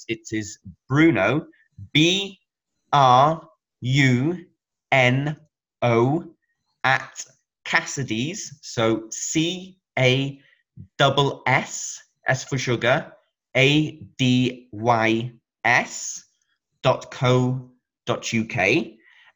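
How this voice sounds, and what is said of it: Slow, deliberate dictation. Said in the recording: “I'll say that slowly”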